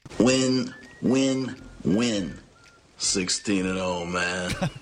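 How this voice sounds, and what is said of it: Comedic impression of NFL figure. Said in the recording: “Frank Caliendo did a similar bit, although much funnier, imitating various NFL coaches reviewing the schedule. Two of his best are the Raiders' John Gruden and the Cowboys' Jerry Jones.”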